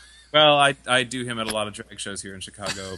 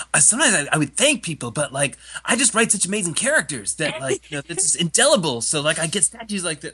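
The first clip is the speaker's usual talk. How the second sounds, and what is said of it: Quentin Tarantino impression. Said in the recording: “A really good Quentin Tarantino impression.”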